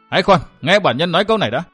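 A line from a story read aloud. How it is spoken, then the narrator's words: Loud shout. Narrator (Vietnamese): lớn tiếng quát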